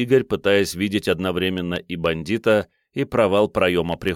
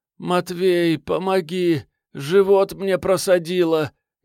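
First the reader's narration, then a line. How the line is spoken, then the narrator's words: Distinct moan of pain, woman. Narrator (Russian): Неожиданно отчетливо простонала баба-налетчица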